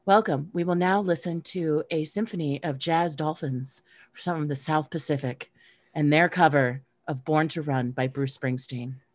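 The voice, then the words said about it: Smooth public radio announcer voice. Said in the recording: “NPR voice ... when she wants to turn it on ... it feels like I'm talking to a different person”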